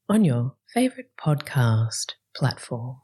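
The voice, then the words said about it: Polished radio-presenter voice. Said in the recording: “mental health worker voice ... radio voice”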